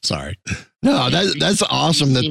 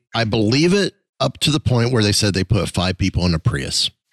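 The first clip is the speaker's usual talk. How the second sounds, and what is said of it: Sarcastic tone. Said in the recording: “say this sarcastically”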